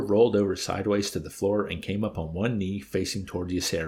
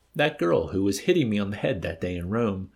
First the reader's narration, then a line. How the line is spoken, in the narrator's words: He chuckled